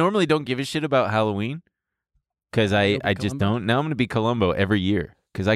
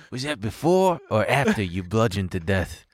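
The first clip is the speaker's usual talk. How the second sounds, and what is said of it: Columbo impression. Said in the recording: “I love doing Columbo voice ... I can do his voice”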